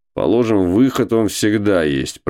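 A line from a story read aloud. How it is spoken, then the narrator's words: Grumbling. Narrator (Russian): проворчал Кузьма Иванович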